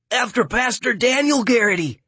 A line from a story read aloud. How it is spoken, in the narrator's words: the know-it-all kid blurts